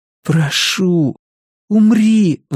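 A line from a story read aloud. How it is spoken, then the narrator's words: Pleading. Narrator (Russian): взмолился Кориолан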